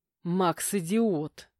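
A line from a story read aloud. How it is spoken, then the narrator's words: Growling. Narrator (Russian): прорычал я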